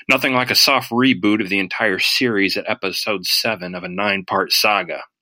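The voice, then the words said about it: Sarcastic tone. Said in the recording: “in case you can't tell from my tone, I'm being sarcastic.”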